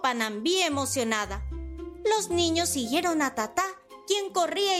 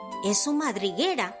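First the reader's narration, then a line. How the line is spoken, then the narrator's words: Whisper. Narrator (Spanish): susurró Diego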